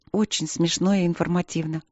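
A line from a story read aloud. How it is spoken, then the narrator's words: Frustrated mutter. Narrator (Russian): пробормотала она, чувствуя себя слепой и неумелой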